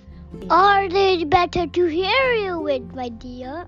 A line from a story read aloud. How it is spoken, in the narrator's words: said the wolf in a granny voice